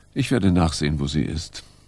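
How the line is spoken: Sad voice. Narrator (German): Sie sagte traurig

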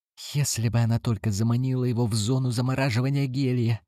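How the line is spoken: Whispered. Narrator (Russian): прошептал Крафт

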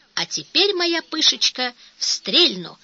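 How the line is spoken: Exclaiming. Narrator (Russian): воскликнул студент

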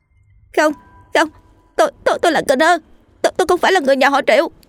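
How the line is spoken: Panicked scream. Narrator (Vietnamese): Tôi trong cơn hoảng sợ thét

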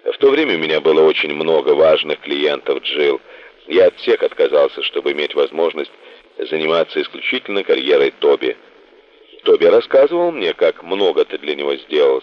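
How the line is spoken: Plain. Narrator (Russian): сказала она

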